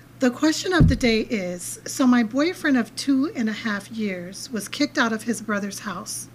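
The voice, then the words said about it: Hoarse voice. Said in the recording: “excuse my voice... it could be because I slept under the fan last night... it's so like kind of hoarse-like”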